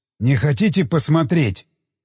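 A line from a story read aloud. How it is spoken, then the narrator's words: Hoarse question. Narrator (Russian): спросил хриплым голосом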